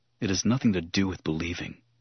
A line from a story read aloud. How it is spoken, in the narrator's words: he murmured, softly bitter